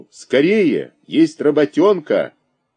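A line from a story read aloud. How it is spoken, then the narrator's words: Shout from afar. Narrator (Russian): Володя еще издали крикнул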